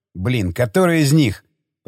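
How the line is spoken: Growled. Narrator (Russian): прорычал командир

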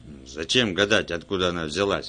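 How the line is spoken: Barked. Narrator (Russian): рявкнул Брэгген

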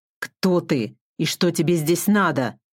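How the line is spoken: Angry hiss through teeth, monster. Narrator (Russian): Злобно сквозь зубы процедило ужасающее существо

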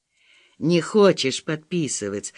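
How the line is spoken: Gentle question. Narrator (Russian): ласково спросил тренер

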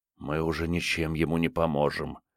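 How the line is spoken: Whisper. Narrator (Russian): прошептал Крейг

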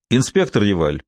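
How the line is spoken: Raised official tone. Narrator (Russian): повысив голос, официальным тоном заговорил Дюпен

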